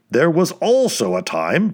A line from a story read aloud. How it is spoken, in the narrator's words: barked Slopes